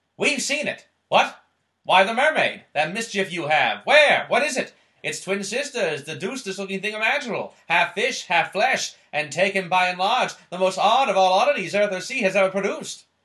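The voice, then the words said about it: Old-time New York newsie accent. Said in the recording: “do my best authentic voice. ... Newsies accent? ... Yes. ... That was really good. ... That was so good. As a New Yorker, that's what I imagine my ancestors sounded like.”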